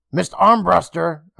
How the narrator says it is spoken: Emma called out to her

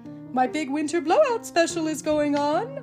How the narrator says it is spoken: Oaken exclaimed

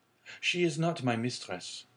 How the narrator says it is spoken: replied the young sailor gravely

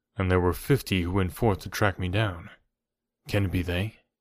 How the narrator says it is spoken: he murmured

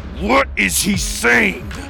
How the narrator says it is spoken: Maximus roared

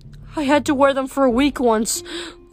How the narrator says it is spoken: Lacey whimpered

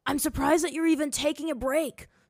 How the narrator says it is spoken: Zuko gasped as he ran by

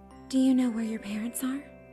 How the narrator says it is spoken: Claire asked in the same sweet tone

